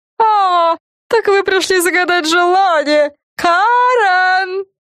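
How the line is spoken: Yelling. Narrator (Russian): Завопила она

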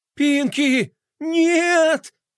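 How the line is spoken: Sobbing. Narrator (Russian): Флай зарыдал

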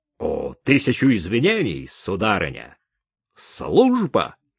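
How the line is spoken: Exclamation. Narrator (Russian): Точно так же, как когда-то в Витебске воскликнул сержант

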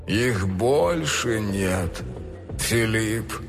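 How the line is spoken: Disappointed drawl. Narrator (Russian): разочарованно протянул он

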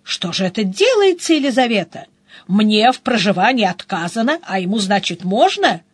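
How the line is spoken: Indignant exclamation. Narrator (Russian): Михаил Степанович возмущенно воскликнул

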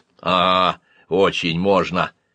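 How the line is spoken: Skeptical snort. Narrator (Russian): недоверчиво хмыкнул я

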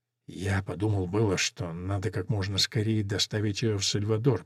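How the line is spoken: Whisper. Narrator (Russian): прошептал Гумусио

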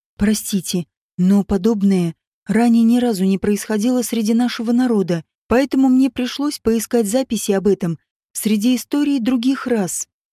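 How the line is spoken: Mage's cheerful excuse. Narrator (Russian): радостно оправдался маг

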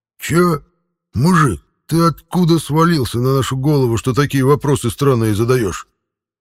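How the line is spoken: Snarling through gritted teeth. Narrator (Russian): Мгновенно вызверившись сквозь зубы, спросил Петр

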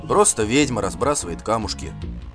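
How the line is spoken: Mumbling. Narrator (Russian): бормотал Гельд

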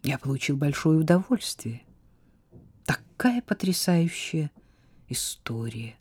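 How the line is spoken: Quiet. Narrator (Russian): сказал он тихо

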